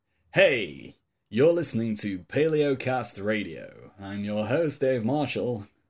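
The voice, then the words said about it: Long drawn-out radio announcer voice. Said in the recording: “long and drawn-out radio voice ... I think that went a bit into David Bowie.”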